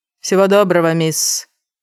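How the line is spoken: Cold farewell. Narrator (Russian): холодно попрощался Альберт Фреймус

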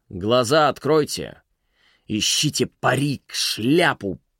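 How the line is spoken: Hissed over headsets. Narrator (Russian): прошипел в их беспроводные наушники Беллос

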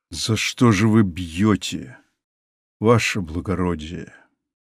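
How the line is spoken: Quiet but menacing. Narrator (Russian): Тихо, но грозно сказал дедушка

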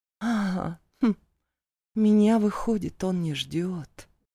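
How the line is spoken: Thoughtful mutter. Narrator (Russian): Задумчиво пробормотала она

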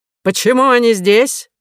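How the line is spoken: Shouting. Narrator (Russian): закричал он

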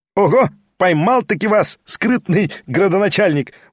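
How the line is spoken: Loud cry while laughing. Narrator (Russian): возопил, смеясь, Петр Степанович

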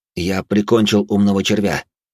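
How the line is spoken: Plain. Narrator (Russian): ответил я

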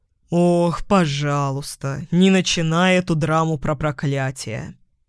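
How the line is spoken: Sarcastic drawl. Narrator (Russian): язвительно протянул он

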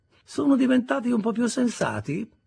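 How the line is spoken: Sad. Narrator (Italian): disse Sarah scrollando tristemente la testa

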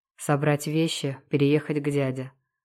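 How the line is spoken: Calm listing. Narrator (Russian): спокойно перечисляю

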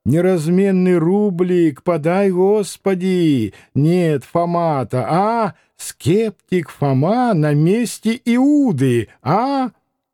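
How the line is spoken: Nasal chant, old deacon. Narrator (Russian): пропел гнусавым голосом старенького дьячка

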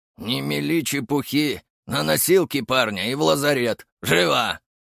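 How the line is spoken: Gray-haired man's bark. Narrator (Russian): рявкнул седовласый мужчина

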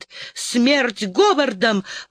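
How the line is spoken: Exclaiming. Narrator (Russian): воскликнула она

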